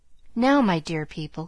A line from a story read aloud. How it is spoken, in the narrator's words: continued Jo earnestly